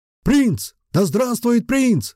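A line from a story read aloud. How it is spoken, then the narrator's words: Trolls and orcs roaring obediently. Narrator (Russian): послушно взревели тролли и орки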